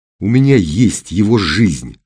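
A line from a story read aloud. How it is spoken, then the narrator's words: Plain. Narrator (Russian): ответил Серый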